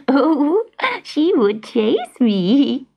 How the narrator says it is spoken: chuckled, her eyes drying

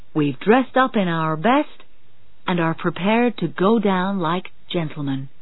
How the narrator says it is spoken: he said

